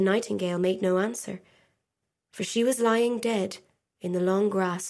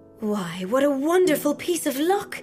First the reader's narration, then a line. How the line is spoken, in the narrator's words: cried